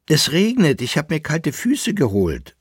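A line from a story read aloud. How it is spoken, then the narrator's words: Plain. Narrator (German): sagte der Leitnitzer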